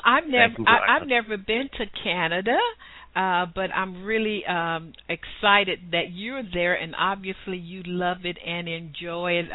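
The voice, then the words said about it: Southern US accent. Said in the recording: “you sound like you're from southern Canada ... it's my southern accent”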